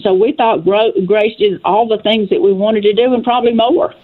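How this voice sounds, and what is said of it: West Tennessee Southern accent. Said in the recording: “I see you're from Dresden, Tennessee... And I hear your accent.”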